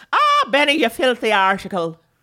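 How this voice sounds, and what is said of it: Put-on Irish accent. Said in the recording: “doing an Irish accent”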